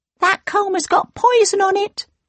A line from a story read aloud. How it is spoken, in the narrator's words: cried the second dwarf